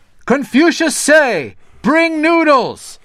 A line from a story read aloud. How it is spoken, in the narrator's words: shouted the servant